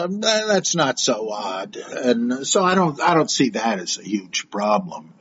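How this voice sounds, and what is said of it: Usual voice. Nothing is said of it.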